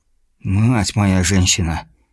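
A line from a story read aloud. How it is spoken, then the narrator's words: Indistinct dry-lipped mumble. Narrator (Russian): невнятно пробормотал пересохшими губами очнувшийся человек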